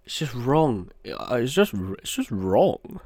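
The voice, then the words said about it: Imitates another person's voice. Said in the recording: “that was a banging impression. ... top quality.”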